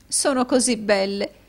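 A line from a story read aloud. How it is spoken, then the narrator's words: Sobbing. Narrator (Italian): disse la signora Kenwigs, singhiozzando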